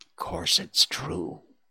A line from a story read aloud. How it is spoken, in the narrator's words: whispered the second